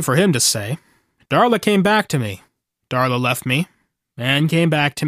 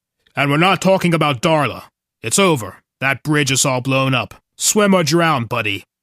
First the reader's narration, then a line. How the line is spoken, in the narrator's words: he snaps